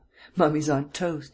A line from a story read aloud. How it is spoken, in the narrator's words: chuckled